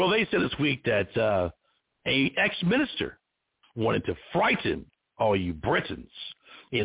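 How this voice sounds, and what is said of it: Usual voice. Nothing is said of it.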